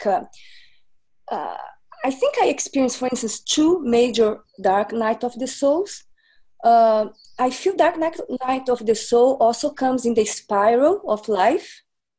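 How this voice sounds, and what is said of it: Accented, slightly unclear speech. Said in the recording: “I had like a little surgery and dental work, so I hope you can understand what I say, plus the accent.”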